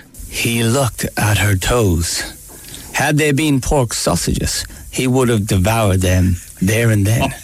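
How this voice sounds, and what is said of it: Irish accent. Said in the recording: “my normal Irish accent ... You lost it ... it was hard to maintain”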